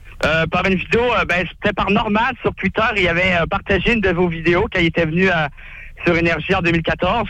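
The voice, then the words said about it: Canadian Quebec French accent. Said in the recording (French): “j'adore l'accent canadien”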